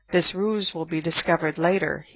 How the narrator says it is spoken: cheerfully explained

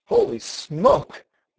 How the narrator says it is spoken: Matt exclaimed

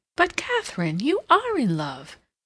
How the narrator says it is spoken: Hilbery could not help exclaiming

